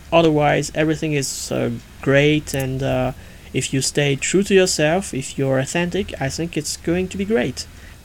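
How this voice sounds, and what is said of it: Foreign-accented English. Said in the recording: “I really like his accent.”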